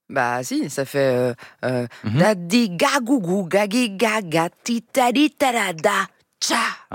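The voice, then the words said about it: Put-on Creole accent. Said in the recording (French): “vous venez de faire l'accent créole.”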